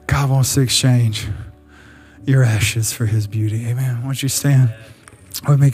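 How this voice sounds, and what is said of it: Breathless, out-of-breath preaching voice. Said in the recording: “I'm out of breath”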